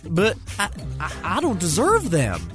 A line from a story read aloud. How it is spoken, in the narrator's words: Champ stuttered